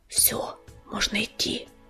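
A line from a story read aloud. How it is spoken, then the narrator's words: Whispered. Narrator (Russian): прошептал Огнезвезд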